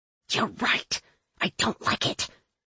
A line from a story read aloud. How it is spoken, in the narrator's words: the witch hissed